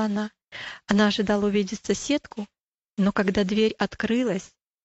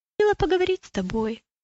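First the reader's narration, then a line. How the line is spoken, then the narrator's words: Timid. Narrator (Russian): робко сказала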